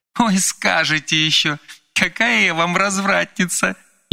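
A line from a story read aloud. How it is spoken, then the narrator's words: Giggling. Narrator (Russian): хихикнула Вероника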